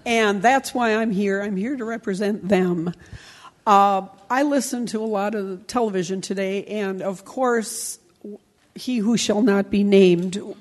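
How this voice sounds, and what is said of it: Hoarse, laryngitic voice. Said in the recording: “I have a bit of a laryngitis problem, so I hope you can hear me.”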